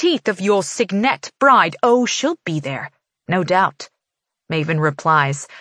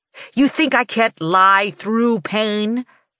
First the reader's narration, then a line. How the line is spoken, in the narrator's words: He snarls, his voice thundering through the room